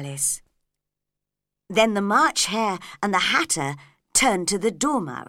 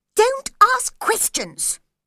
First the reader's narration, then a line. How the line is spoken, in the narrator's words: said the March Hare crossly